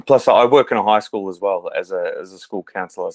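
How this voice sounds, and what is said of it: Australian accent. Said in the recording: “if they can't already tell by your accent ... I'm in Melbourne, Australia. So I've been here all my life.”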